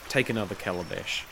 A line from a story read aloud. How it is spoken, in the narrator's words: said in a flat voice